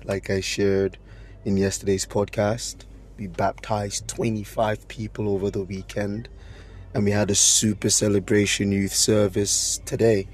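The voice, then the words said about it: Strained, not fully recovered voice. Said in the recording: “My voice hasn't recovered yet ... my voice didn't really get much time to heal”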